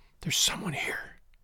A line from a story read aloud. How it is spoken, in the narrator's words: she whispered